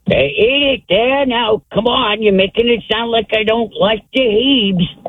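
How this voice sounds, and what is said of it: Archie Bunker impression. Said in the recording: “a pretty good Archie Bunker impression.”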